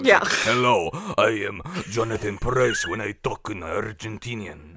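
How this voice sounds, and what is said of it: Put-on Spanish accent. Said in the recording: “with a Spanish accent”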